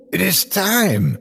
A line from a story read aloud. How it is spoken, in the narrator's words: exclaimed